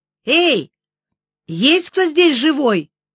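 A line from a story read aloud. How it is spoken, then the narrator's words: Shouted. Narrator (Russian): крикнула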